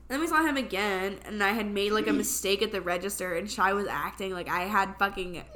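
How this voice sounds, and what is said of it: Sounds sick. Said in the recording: “sorry if I sound sick, by the way. I am.”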